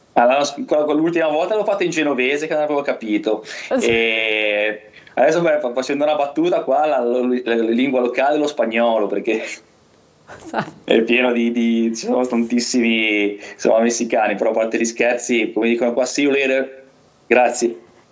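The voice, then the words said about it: Genoese Italian accent. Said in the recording (Italian): “il tuo accento genovese è uscito di nuovo fuori”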